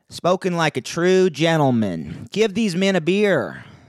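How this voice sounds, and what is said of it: Italian-American New York mobster accent. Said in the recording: “the real accent of Sonny, the Italian-American Bronx mob boss ... that's closer to what a New Yorker sounds like, an Italian-American New Yorker”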